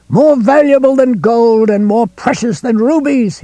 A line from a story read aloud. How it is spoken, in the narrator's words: he screamed